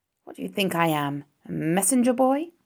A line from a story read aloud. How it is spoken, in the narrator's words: grumbled the rat